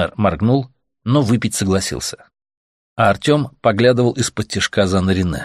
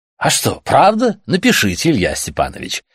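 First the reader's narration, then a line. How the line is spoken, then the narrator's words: Enthusiastic exclamation. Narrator (Russian): воскликнул Дитмар, заразившись учительским энтузиазмом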